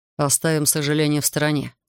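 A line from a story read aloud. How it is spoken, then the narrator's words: Dry reply. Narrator (Russian): сухо ответил Артур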